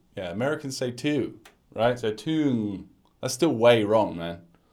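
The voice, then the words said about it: British accent. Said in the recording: “my British accent ... I'm a British guy”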